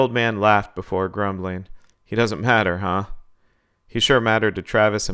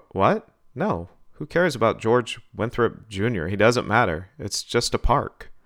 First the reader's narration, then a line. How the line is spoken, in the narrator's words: He stammered